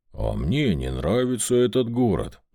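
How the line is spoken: Grumbling. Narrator (Russian): проворчал Вольт

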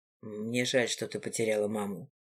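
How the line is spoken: Quiet. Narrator (Russian): тихо проговорил Гидеон

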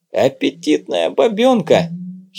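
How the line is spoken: Giggling. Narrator (Russian): хихикнул второй

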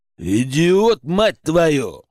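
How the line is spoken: Growl from bald man. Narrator (Russian): прорычал лысый

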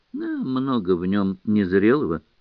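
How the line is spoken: Calm reply. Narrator (Russian): отвечал спокойно Гоголь

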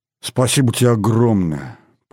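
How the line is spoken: Moaning. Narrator (Russian): простонала скво

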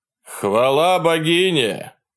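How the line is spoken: Shout. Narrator (Russian): крикнул один из них

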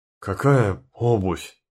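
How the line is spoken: Forced out, strained. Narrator (Russian): выдавил из себя

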